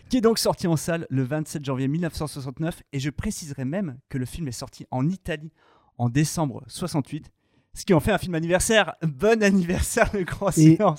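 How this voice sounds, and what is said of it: Put-on Italian accent. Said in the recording (French): “Je vais vraiment faire cet accent italien tout l'épisode.”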